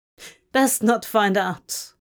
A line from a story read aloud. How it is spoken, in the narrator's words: Crawley snorted